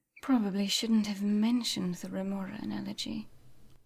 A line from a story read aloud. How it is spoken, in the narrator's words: murmured Amanda